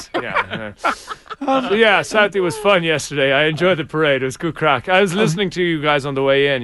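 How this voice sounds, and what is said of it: Irish accent. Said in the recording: “You've got an accent ... you're like from Ireland?”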